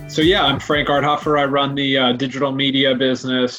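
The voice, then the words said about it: American accent. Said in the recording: “as you can hear from my accent, I came from the US of A”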